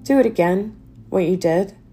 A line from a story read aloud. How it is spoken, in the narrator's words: she said, her voice throaty with grief